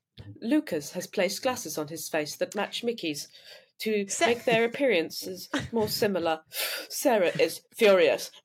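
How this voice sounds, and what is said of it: Robotic audio-description voice. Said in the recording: “You're doing kind of like a robotic accent as well.”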